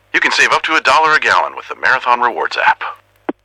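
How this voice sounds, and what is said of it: Impression of Max the Bald Eagle. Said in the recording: “We asked people if they could do an impression of me. ... That last one was pretty good.”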